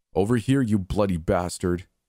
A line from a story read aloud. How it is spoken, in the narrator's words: yelled